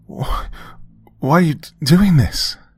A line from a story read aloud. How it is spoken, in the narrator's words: I asked, my breath hitched between sobs